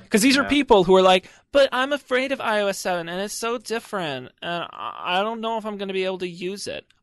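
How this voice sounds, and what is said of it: Mock Valley Girl voice, not very good. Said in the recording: “Interesting accent you have there ... That's my stupid person slash Valley Girl voice. ... It's not very good.”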